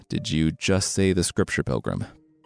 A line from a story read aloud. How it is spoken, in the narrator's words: Monkey mumbled, staring off into nowhere